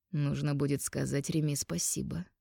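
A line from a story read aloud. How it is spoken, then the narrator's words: Smirking grunt. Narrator (Russian): хмыкнул Эйс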